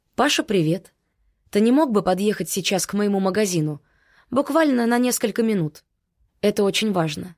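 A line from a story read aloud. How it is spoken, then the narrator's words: Seemingly calm tone. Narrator (Russian): Сказала вроде совершенно спокойным тоном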